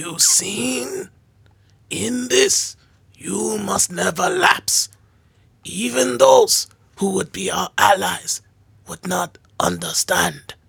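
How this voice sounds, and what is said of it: Raspy Splinter character voice. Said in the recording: “I'm not gonna do the voice, but I'm gonna do the rasp ... That was a really good Splinter”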